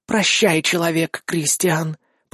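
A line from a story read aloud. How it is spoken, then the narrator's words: Sad whisper. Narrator (Russian): прошептала гарпия с грустью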